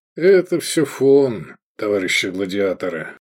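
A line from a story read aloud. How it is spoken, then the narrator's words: Lazy drawl. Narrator (Russian): лениво проговорил Сергей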